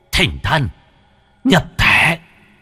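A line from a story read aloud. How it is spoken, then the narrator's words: Mutter rising to a hiss. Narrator (Vietnamese): miệng lẩm bẩm rồi rít lên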